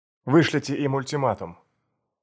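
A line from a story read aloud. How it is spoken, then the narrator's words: Stern voice. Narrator (Russian): суровым голосом сказал Дэвид Корман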